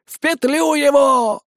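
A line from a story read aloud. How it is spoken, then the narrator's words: Old woman howling. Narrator (Russian): взвыла бабка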